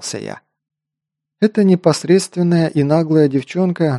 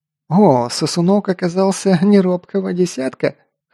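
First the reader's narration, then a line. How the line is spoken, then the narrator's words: Big man chuckling. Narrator (Russian): хохотнул здоровяк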